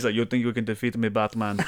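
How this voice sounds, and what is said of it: Imitated Russian accent. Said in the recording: “That accent threw me off. Dude. It's like a little Guillermo accent in between ... I wonder if that's a real Russian ... somebody was imitating the accent?”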